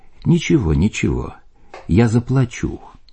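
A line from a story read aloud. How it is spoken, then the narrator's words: Soft. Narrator (Russian): Отец Иоанн мягко сказал мне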